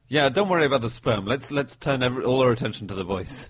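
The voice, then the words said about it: Slight put-on Italian accent. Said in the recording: “slight Italian accent ... Just an Italian guy”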